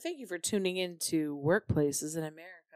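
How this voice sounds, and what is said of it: Imitates an NPR radio announcer voice. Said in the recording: “On NPR. ... That was my NPR voice”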